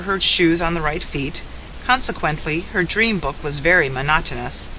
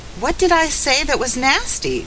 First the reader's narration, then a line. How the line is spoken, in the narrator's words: cried Felicity